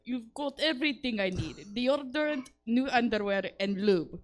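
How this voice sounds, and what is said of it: Put-on Russian accent. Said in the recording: “I'm going to do it in a Russian accent.”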